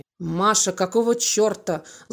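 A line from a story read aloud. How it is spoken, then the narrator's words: Angry curse, echoing. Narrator (Russian): зло выругался Володя, и эхо тут же повторило за ним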